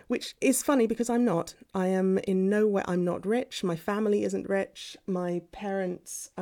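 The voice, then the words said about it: Posh British accent. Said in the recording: “Posh. All through my life, you've got the posh accent. So yeah, I'm not quite BBC RP type accent, not quite that much, which is sort of like how the Queen talks, but yeah, definitely posh ... the well-spoken accent”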